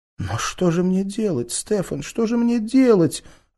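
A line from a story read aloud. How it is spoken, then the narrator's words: Bursting into sobs. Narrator (Russian): Она разрыдалась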